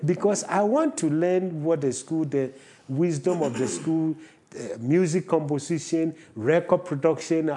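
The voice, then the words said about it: Non-American foreign accent. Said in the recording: “the moment I open my mouth, where is the accent come from? ... once they hear my accent, they realize that I am not from here”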